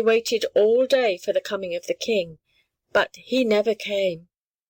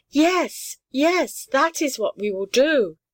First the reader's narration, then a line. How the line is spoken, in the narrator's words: said the littlest one